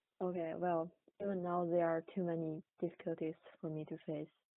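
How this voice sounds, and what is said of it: Heavy non-native accent. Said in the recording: “I have really heavy accent”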